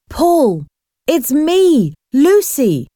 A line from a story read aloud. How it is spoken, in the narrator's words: shouted